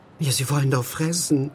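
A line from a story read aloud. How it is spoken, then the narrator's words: Old woman sighing. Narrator (German): seufzte die alte Frau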